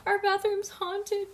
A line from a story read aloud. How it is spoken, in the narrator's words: she wailed suddenly